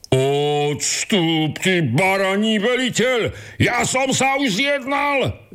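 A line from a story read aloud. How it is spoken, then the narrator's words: Shouting again. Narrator (Slovak): vykríkol znovu ten prvý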